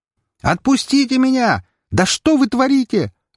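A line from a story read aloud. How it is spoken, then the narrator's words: Screaming. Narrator (Russian): вопила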